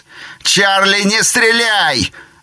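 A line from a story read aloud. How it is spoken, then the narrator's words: Screaming at top of lungs. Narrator (Russian): завопил Кид во всю глотку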